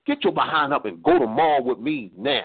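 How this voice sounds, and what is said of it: Angry, commanding voice. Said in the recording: “in an angry voice,”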